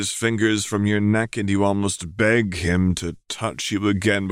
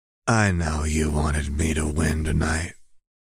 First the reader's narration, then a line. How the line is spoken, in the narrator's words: he purrs into your ear